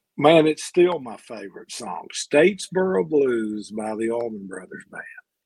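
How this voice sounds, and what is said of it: Southern American accent. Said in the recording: “I am a huge Southern. ... I don't have this accent for nothing, buddy.”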